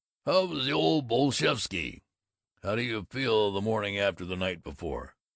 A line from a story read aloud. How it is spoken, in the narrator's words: Grunt shouted